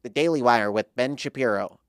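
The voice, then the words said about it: A decent voice impression. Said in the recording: “That's not a bad impression.”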